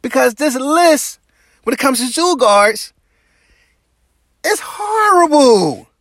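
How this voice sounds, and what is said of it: Raised, irritated voice. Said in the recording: “my voice is raised, why I sound like I'm irritated”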